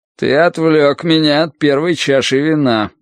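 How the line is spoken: Gloomy. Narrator (Russian): мрачно произнес он

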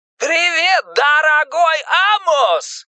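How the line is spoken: Joyful shouting over phone. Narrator (Russian): радостно кричал Пеннивайз из мотающейся трубки

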